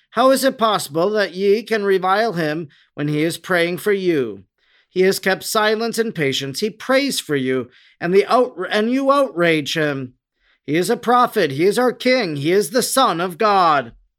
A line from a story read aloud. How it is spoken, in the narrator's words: He raised his voice and cried in a clear and commanding tone